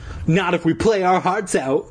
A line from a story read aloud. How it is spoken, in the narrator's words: Christina exclaimed with emotion